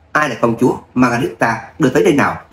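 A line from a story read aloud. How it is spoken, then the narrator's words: Smiling. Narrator (Vietnamese): Lâm Minh gật đầu mỉm cười với Anna rồi nói với hoàng tử Brigand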